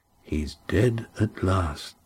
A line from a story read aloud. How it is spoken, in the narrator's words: said Adramin softly